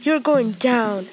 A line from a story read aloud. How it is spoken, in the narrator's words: exclaimed